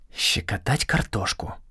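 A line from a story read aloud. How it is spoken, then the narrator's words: Whispered. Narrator (Russian): шепнул я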